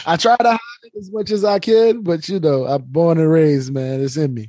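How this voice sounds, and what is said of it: New Orleans accent. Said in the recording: “that New Orleans accent ... one of the best accents in the country”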